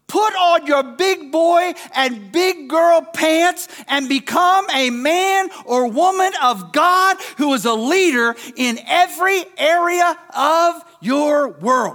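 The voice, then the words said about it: Screaming, very loud preaching voice. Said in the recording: “I'm screaming, aren't I? I'm screaming, aren't I? I'm screaming”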